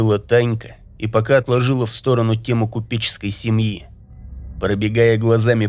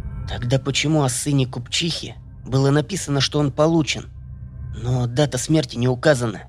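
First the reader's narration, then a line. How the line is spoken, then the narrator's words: Quiet. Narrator (Russian): Серега тихо сказал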